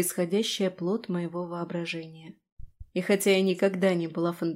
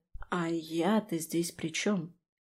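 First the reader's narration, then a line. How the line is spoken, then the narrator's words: Slow. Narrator (Russian): проговорила медленно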